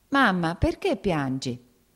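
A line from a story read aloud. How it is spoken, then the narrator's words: Whiny crying shout. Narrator (Italian): gridò con voce piagnucolosa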